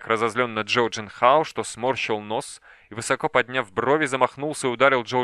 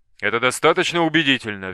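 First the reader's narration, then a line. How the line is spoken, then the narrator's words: Sharp blurt. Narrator (Russian): Виагра резко выпалил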